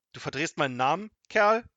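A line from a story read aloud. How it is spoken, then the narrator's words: Angry shout. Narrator (German): rief zornig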